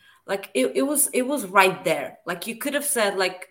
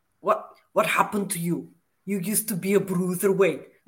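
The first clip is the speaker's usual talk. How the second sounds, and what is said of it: Imitates another person's voice. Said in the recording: “Arnold Schwarzenegger ... my Walter impersonation is basically a Schwarzenegger impersonation.”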